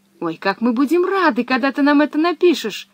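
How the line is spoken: Exclaiming. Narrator (Russian): воскликнул Томми

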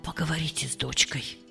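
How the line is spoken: Whisper. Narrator (Russian): Доктор Ван Анден прошептал

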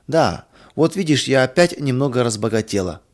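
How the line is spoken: Laughing. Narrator (Russian): засмеялась Мария

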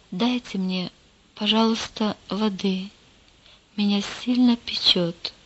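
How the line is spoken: Quiet whisper. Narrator (Russian): тихо прошептал

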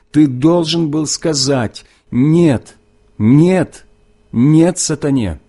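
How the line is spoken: Loud repetition. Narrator (Russian): снова громко повторил

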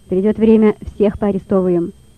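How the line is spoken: Sharp. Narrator (Russian): резко сказал следователь

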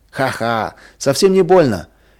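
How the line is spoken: Cheerful laughing. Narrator (Russian): весело засмеялся Вадим

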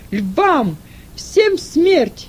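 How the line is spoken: Shouted. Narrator (Russian): крикнул Сатурнин

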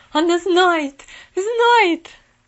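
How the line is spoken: Terrified scream. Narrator (Russian): В ужасе закричала сиделка

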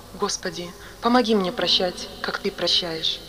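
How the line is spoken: Quiet. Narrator (Russian): он тихо сказал

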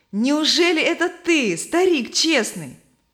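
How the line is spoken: Joyful. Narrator (Russian): Стой Твердо радостно обратился к нему

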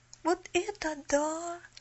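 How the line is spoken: Breathless exclamation. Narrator (Russian): выдохнула Поллианна

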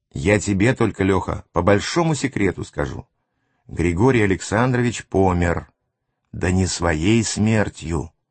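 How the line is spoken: Whisper into ear. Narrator (Russian): нагнувшись к моему уху, прошептал

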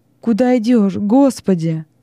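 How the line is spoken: Old man's sobbing voice. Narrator (Russian): послышался прерываемый рыданиями голос старика

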